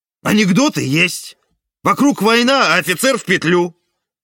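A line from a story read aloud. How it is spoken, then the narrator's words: Yelling. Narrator (Russian): орал я, словно это ты шила дело на Ивана в далеком 44-м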